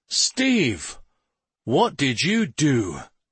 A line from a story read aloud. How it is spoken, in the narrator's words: he asked in an exasperated tone